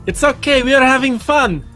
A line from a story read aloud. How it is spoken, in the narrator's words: yell back